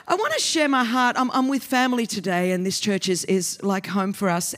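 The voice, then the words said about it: Australian accent, fast speech. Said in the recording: “I only speak three ways hard, fast, and continuously ... this is an Australian accent. This is how uh, the colonies speak.”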